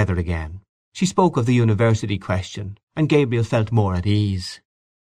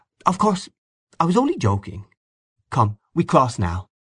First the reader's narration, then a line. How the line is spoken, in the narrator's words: Miss Ivors said in a soft friendly tone